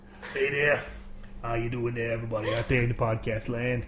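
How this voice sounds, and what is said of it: Deep raspy character voice. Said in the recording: “Deep Voice Johnny ... You sound like you've been smoking for 20 years.”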